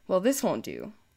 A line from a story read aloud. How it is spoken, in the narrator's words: Marcus said in a disapproving tone